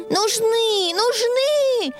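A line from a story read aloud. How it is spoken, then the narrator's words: Shouted. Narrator (Russian): Закричала Белочка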